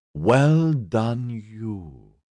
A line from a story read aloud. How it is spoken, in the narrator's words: Catriona purred